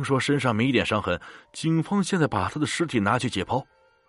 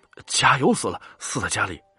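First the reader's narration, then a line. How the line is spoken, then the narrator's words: Terrified voice. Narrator (Chinese): 小姨的声音充满恐惧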